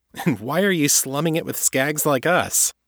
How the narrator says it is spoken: Lizzie chuckled, surprising Kate again with the richness of the sound

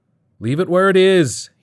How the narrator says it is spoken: shouted over his shoulder

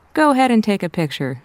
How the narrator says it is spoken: she laughed to herself

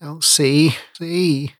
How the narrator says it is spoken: he groaned against his hands

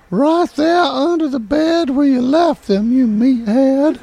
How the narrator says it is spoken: she was a little bit annoyed, hollered

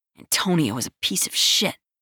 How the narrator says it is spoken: Marco mumbles

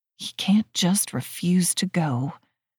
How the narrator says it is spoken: I mutter, my blood pressure spiking

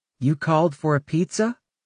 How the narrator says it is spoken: said brightly

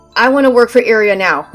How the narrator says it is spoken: Andy practically had to shout to me

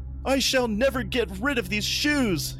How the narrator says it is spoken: he wailed

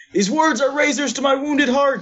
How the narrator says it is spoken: Gonna use word speak again and shout

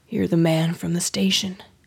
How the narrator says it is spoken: he mumbled

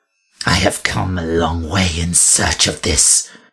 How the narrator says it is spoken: she hissed

